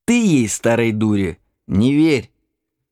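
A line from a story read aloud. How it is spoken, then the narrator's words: Stern instruction. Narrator (Russian): Строго учил он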